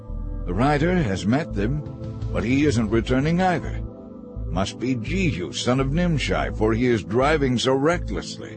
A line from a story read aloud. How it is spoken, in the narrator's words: The watchman exclaimed